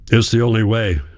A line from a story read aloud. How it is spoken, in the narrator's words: my father grunted